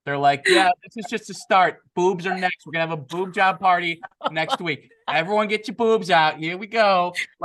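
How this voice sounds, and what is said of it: Put-on Boston New York accent. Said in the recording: “why is that in like a Boston, New York accent?”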